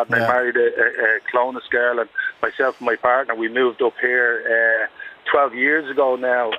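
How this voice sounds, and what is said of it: Dublin Irish accent. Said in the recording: “I'm sure you can gather by my accent. I'm a Dublin lad.”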